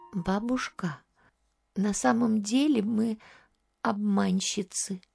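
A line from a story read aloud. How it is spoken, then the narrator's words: Timid answer. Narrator (Russian): Варвара робко ответила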